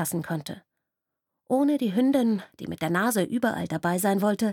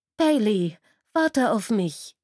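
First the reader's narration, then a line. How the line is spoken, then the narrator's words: Hasty call. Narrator (German): rief sie hastig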